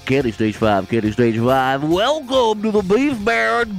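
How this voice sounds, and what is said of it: Strip club DJ announcer voice. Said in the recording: “read that sign in your strip club DJ voice”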